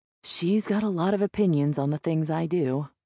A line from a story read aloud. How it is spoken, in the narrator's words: he says with a sigh